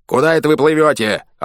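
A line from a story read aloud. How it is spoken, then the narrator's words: Yelling. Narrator (Russian): орал он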